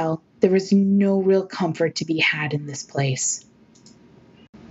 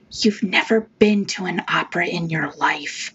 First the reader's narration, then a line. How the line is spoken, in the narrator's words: Ada whispered